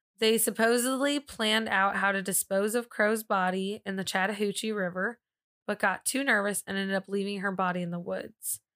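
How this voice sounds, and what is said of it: Regional accent. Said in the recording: “It's when you say Chattahoochee, that's when it comes out. ... my accent? ... Yeah. ... Corey made fun of the way I say it”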